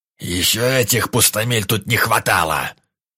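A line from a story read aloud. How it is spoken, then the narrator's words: Growl. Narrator (Russian): Вдруг рыкнул глава гильдии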